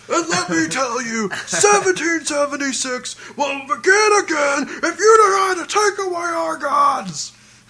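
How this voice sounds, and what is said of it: Alex Jones impression. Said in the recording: “he does an awesome Alex Jones ... I can do that voice too”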